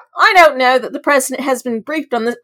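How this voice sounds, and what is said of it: Put-on accent while quoting. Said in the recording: “I don't know why I chose that accent.”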